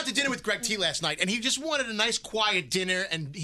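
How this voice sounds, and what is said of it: Usual voice. Nothing is said of it.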